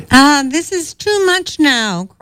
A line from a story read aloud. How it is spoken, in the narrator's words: cried Doña Lupin